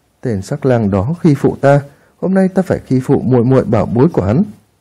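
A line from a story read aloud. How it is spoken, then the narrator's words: Soft mischievous laugh. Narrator (Vietnamese): Long Linh Nhi hồi thần lại, nhãn châu bỗng nhiên đảo một vòng, nàng cười khẽ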